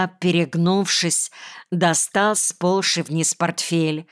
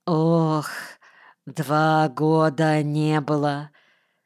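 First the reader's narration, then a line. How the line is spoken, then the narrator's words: Feeble flabby voice. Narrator (Russian): совсем одрябшим голосом ответил он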